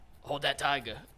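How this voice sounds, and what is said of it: Badly done put-on accent. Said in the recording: “My accent's terrible. ... And terrible then, accent.”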